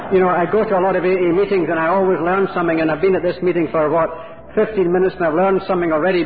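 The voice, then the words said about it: Non-local, possibly Irish-Scottish accent. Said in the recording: “You can tell by my accent that I'm not from this part of the world. ... part of me that's Irish and part of me that's Scottish”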